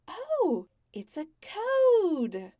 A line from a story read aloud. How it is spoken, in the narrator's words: Vala said brightly